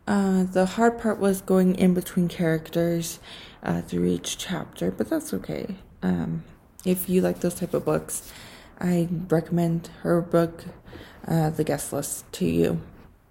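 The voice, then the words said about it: Slightly raspy voice. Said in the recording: “my voice is a little bit raspy today... I have allergies, and if it's hard to hear”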